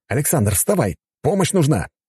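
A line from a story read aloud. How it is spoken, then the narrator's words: Exclaiming. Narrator (Russian): воскликнул Булатов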